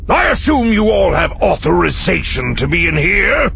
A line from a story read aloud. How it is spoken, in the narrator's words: he growled